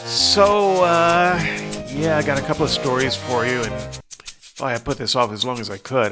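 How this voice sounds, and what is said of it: Congested voice from a cold. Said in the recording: “You can probably hear that on the mic. I've got a little bit of a cold.”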